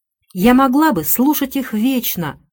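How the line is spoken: Exclaiming. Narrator (Russian): воскликнула она

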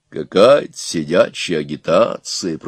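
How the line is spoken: Grumbling. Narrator (Russian): проворчал он

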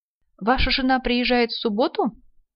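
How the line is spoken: Innocent question across table. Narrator (Russian): через весь стол невинным голосом спросил Колин

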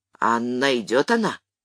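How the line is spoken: Quiet daughter. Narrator (Russian): Дочка тихо

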